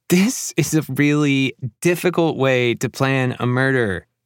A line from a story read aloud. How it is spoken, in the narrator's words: Laughing breathlessly, manages to say